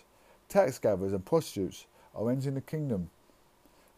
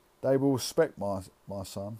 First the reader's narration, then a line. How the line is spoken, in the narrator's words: he said